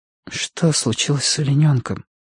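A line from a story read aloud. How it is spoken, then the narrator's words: Whispered. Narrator (Russian): прошептала она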